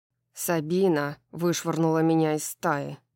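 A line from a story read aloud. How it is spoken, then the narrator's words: Growling. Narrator (Russian): прорычал Итан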